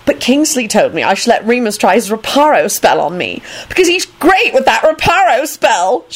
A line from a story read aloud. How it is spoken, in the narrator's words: she screamed blissfully